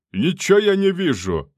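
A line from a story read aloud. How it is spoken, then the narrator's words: Yelling. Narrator (Russian): заорал он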